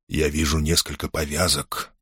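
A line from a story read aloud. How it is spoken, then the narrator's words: Whispered reply. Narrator (Russian): шепотом откликнулся Шонберг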